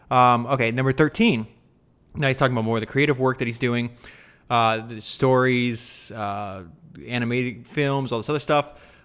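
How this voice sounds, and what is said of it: Voice slightly off from a cold. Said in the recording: “I have a little bit of cold, so my voice is a little off.”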